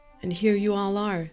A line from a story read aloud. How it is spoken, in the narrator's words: she said, and her voice cracked just a bit